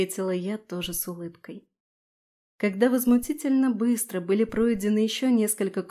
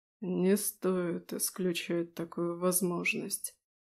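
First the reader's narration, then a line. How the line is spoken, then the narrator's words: Hoarse. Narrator (Russian): хрипло ответил Эльден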